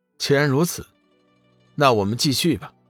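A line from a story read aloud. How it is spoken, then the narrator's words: Faint smile. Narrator (Chinese): 龙宇淡淡一笑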